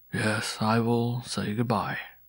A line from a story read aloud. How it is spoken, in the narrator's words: replied the beggar in a solemn voice